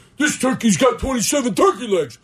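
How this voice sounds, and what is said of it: John Madden impression. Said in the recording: “My name's Madden. Sorry, that was your impersonation too.”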